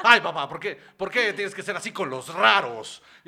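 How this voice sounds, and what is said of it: Imitates another person's voice. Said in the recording (Spanish): “esta es mi imitación de Ortiz”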